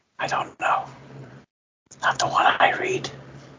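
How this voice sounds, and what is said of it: Whispering. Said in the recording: “I think we're all whispering right now.”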